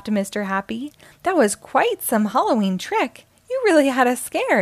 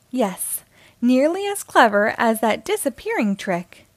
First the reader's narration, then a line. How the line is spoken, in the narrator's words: exclaimed Mr